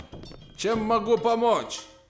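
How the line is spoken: Loud, big man. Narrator (Russian): Рослый одноглазый громко сказал

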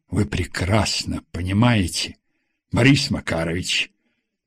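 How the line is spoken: Stern. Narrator (Russian): строго сказал Самедов

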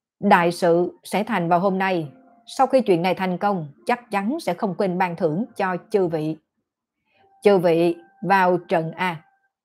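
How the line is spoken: Raised loud voice. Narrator (Vietnamese): Vị Tôn Đại Sư kia cất cao giọng nói

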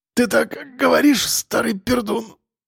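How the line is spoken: Strained, forced out. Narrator (Russian): с трудом выдавил Костя

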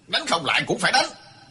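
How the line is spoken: Angry old man. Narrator (Vietnamese): Lão già Cao tức giận nói

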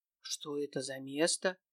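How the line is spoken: Whisper under breath. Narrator (Russian): себе под нос шепнул Мирослав

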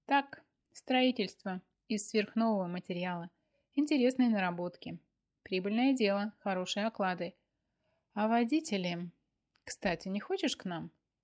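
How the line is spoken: Giggling woman. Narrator (Russian): хихикнула она

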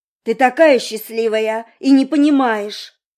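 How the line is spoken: Sudden yell breaking into shriek. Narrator (Russian): она вдруг заорала, срываясь на визг

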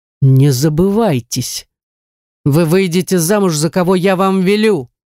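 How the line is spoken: Stern, sobering voice. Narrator (Russian): строгим голосом решил привести меня в чувство

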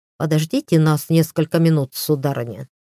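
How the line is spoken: Snort, almost in unison. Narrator (Russian): Парни хмыкнули и чуть не хором сказали

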